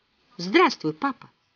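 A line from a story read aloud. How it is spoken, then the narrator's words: Quiet voice. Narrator (Russian): негромко сказала дверь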